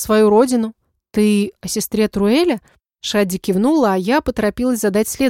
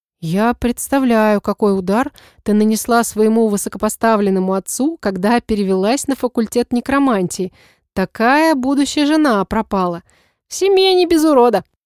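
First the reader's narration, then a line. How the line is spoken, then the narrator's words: Giggling. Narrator (Russian): хихикнула Шадди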